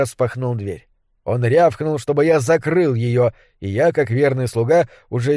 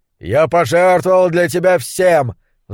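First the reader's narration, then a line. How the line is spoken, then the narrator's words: Roar. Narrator (Russian): взревел он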